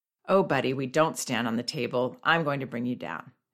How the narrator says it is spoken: I calmly came over to him and said

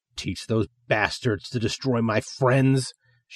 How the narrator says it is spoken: she growls

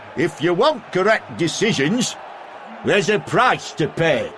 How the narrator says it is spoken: he just shouted back

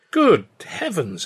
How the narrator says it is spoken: exclaimed

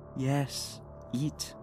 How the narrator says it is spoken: the voice said, thick in a honeyed tone

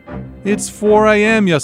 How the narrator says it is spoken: he shouted

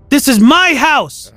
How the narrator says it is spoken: I screamed

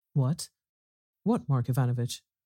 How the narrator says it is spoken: faltered

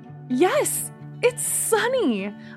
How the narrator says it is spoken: I cried, happily

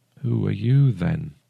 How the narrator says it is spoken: he asked softly

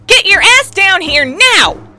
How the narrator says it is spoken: With all the authority she could muster, she bellowed

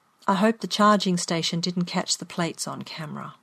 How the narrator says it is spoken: my mum said very quietly

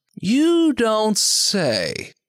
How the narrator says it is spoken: Art drawls

